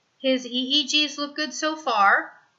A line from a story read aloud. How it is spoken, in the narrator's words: Melissa says